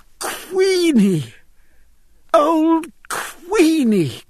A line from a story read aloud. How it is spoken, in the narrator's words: cried Jack